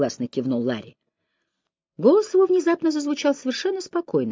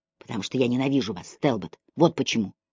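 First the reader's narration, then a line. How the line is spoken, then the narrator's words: Broken, chilling whisper. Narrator (Russian): прошептал он прерывающимся голосом, от которого у меня по спине побежали мурашки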